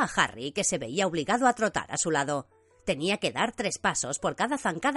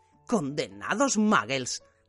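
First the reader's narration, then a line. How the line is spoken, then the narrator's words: Growled. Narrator (Spanish): gruñó Hagrid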